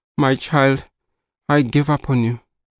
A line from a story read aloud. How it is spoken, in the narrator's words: mother sighed